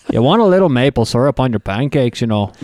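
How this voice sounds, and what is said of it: Put-on North Dakota accent. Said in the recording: “I've got a pretty good North Dakota accent ... That sounds a little Canadian.”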